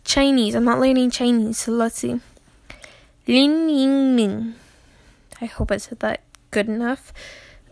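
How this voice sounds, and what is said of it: Tired, slurred speech. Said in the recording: “this is how you can tell I'm tired. I'm slurring my words.”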